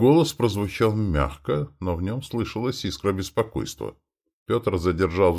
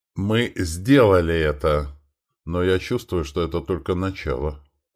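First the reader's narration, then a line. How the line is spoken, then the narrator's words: Plain. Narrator (Russian): сказал он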